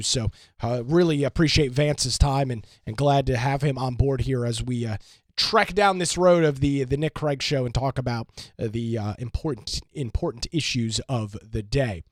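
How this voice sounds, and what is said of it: Hoarse voice from a cold. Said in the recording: “my voice, as you can hear, is incredibly hoarse, dealing with a little bit of a little cold or something”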